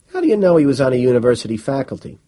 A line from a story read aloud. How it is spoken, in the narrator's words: asked Moore